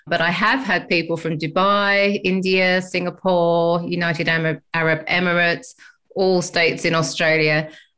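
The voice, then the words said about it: English accent. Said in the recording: “as you can tell by my accent, I'm from England”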